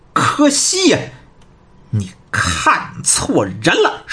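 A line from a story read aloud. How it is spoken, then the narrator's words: Cold sneer. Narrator (Chinese): 张广泰冷冷的一笑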